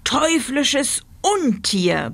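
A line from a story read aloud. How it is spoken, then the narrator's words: Roaring. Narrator (German): brüllte er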